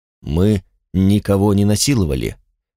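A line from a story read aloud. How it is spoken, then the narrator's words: Quiet. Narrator (Russian): негромко сказал Ларис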